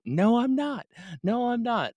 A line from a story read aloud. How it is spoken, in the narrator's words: she was screaming back